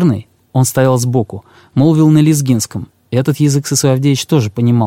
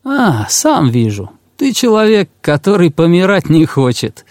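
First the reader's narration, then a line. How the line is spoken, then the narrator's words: Laughing. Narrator (Russian): и засмеялся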